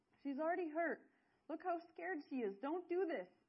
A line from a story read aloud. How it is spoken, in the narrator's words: screamed